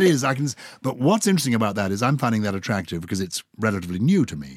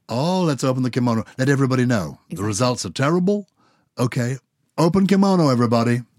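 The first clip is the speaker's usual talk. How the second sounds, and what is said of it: Put-on American accent. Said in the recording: “I love the way I'm doing an American accent.”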